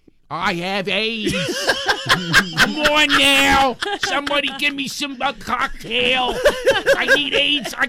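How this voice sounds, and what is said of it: Tom Hanks with heavy Philly accent. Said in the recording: “Tom Hanks in the movie Philadelphia... if he had had a wicked Philly accent”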